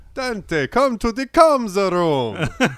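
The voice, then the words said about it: Count Chocula-style Romanian accent. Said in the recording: “talking like Count Chocula ... like a Romanian accent”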